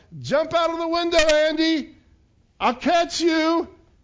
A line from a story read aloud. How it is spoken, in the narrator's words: his father yelled back from below